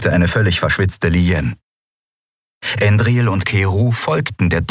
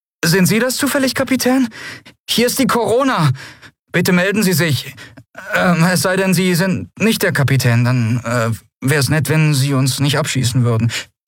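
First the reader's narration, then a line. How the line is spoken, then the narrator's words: Nervous questioning voice. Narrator (German): eine nervöse Stimme fragte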